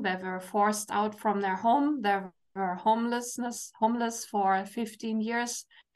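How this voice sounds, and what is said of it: German accent. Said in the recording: “you hear my accent, I'm from Germany”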